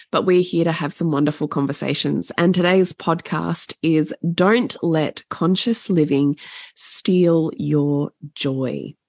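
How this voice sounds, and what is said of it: Voice affected by illness. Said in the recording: “I'm a little under the weather. So I do apologize for my voice”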